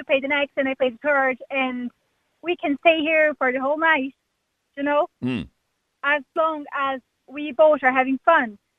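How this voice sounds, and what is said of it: Brazilian accent. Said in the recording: “where is that accent from? ... Where is your accent from? ... I'm Brazilian.”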